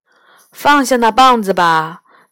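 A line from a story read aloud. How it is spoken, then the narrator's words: Sighing. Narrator (Chinese): 毕岸叹了口气说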